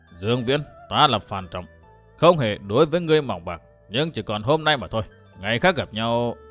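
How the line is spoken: Very cold, stern voice. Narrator (Vietnamese): Hồng Diệp Bắc Trổ ngắt ngang lời nói của Dương Viễn bằng giọng nói quá lạnh lùng nghiêm khắc

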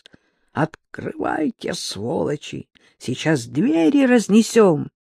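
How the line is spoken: Hoarse voice. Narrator (Russian): раздался хриплый русский голос

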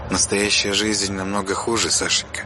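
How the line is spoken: Quiet reply. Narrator (Russian): тихо ответила Ирма

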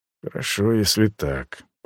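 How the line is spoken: Muttered. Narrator (Russian): пробормотал я

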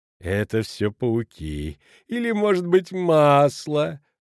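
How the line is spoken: Sugary sung, innkeeper. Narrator (Russian): приторным голосом пропел корчмарь

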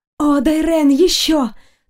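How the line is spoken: Languid, audible breathy exclamation. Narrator (Russian): Томно выдохнула я так, чтобы было слышно со стороны

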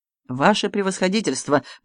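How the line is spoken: Mumbled. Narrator (Russian): пробормотал Гиацинтов

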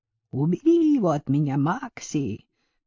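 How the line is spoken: Growled. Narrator (Russian): прорычал Патрик

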